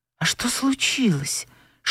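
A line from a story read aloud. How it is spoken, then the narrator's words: Whispered question. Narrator (Russian): шепотом спросил он у Анфисы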